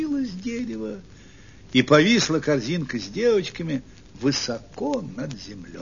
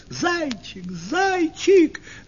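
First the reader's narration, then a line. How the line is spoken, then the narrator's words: Girls shouting. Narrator (Russian): закричали девочки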